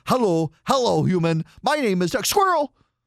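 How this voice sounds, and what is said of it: Cartoon talking dog voice. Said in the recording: “my Doug the Dog impression”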